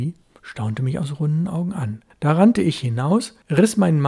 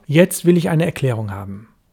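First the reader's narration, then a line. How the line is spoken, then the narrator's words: Sharp. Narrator (German): sagte ich scharf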